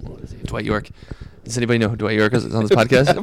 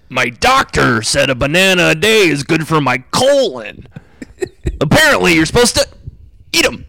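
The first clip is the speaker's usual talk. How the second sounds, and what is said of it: Imitates another person's voice. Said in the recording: “I can do Dwight York ... every impression I do sounds like Fonzie from Happy Days”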